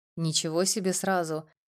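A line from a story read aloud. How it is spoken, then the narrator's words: Soft laugh. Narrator (Russian): мягко рассмеялся он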